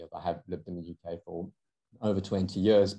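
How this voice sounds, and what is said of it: South African accent. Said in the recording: “you can probably hear from my accent, I'm South African originally”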